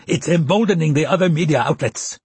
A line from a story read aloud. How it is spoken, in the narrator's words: Chutani shouted